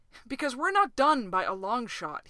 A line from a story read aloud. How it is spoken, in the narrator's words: he said fiercely